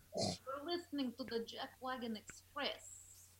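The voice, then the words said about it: Put-on Russian accent. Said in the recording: “a good Russian accent”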